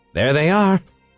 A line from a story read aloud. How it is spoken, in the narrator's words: exclaimed